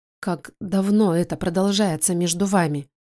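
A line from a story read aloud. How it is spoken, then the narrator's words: Quiet female reply. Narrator (Russian): Она тихо отвечает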